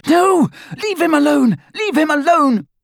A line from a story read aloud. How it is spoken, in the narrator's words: Hermione screamed